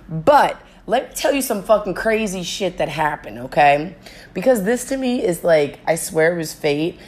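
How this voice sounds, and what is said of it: Hoarse, strained voice. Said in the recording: “My voice is still slowly coming back because every night I had such a good time that I could not stop screaming, not stop yelling.”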